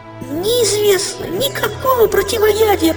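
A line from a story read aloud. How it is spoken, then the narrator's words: Moaning. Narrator (Russian): простонала лодка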